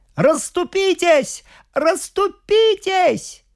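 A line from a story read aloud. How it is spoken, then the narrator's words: Frenzied shout. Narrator (Russian): Принц, как одержимый, исступленно крикнул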